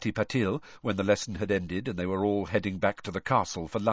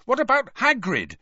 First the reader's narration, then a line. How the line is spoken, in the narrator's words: Harry said angrily